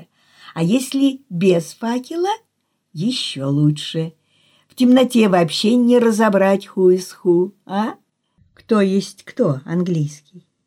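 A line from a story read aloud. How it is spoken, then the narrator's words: Mischievous laugh. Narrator (Russian): он засмеялся озорно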